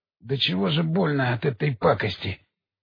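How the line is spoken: Groaning policeman. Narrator (Russian): простонал полицейский

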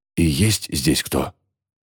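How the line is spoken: Whispered question. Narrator (Russian): шепотом спрашиваю

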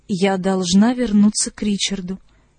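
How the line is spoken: Lifeless voice. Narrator (Russian): безжизненным голосом повторила

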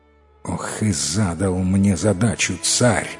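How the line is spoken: Young man grumbling. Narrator (Russian): проворчал юноша

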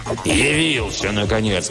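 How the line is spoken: Angry roar. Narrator (Russian): взревел Оп сердито

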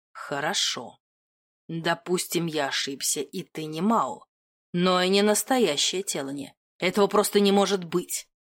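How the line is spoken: Through gritted teeth. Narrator (Russian): процедил Доминик сквозь зубы

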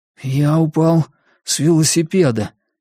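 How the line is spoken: Hoarse explanation. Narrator (Russian): хриплым голосом пояснил Сиян

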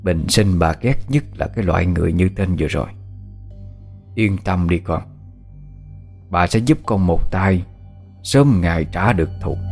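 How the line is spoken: Cold, murderous. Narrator (Vietnamese): Đôi mắt bà Tự bỗng ánh lên một tia sát ý, bà lạnh lùng đáp

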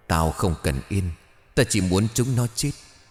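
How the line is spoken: Trembling yet clear voice. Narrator (Vietnamese): một giọng nói vang lên run rẩy nhưng thanh thoát

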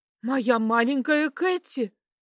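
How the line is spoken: Woman's exclamation. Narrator (Russian): воскликнула женщина

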